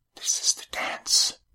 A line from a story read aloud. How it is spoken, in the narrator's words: she whispered